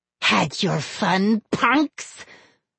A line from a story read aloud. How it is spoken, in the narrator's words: Slappy rasped